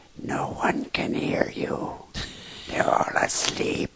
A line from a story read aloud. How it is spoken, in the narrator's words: in a hoarse whisper, he said